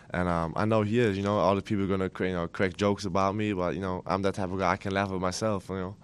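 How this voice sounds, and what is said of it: German accent speaking English. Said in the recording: “How did your accent go over ... at home, I speak with my wife German all the time, so I'm not going to lose that accent”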